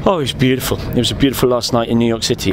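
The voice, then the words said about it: British accent. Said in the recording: “The British accent kind of works even better here”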